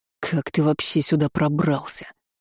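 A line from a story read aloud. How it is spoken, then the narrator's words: Wheezing into choked laughter. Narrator (Russian): Демон захрипел, но этот хрип перешел в сдавленный смех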